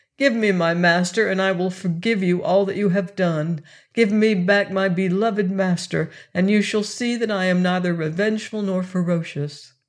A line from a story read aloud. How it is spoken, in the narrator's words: Then he whined piteously, as if he would have said